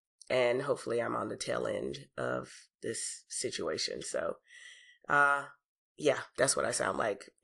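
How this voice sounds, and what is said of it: Deep, rough sick-sounding voice. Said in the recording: “excuse my voice. I've been sick for 2 weeks now. ... I'm going to sound like a female Barry White for probably another couple of days.”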